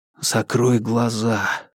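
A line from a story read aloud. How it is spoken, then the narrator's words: Whisper in ear. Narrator (Russian): прошептал Марк на ухо Миле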